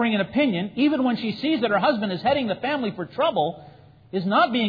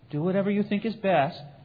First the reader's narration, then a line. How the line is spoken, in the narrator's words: The wife who says quietly